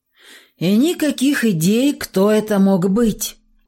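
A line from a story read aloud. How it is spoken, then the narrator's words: Tired sigh. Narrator (Russian): Устало вздохнул следователь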